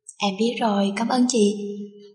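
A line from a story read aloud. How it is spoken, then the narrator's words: Gentle smiling. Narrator (Vietnamese): Hàn Tuyết nhẹ mỉm cười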